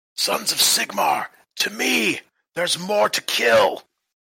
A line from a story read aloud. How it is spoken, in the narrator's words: He shouts